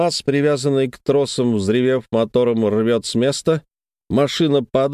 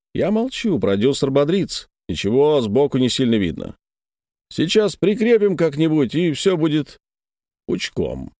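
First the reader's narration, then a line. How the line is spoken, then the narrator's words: Innocent tone. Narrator (Russian): невинным тоном замечаю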